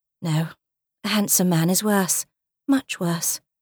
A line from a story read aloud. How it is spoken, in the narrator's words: she muttered to herself